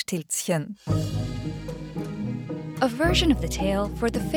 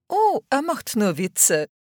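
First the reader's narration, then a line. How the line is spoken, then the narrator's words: People saying, laughing. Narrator (German): sagten die Leute und lachten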